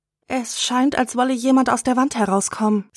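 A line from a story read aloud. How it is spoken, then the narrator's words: Fearful voice. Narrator (German): sagt Maggie mit angsterfüllter Stimme zu ihrer Mutter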